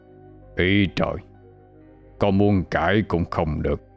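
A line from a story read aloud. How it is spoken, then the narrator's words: Old man muttering. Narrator (Vietnamese): Ông lẩm bẩm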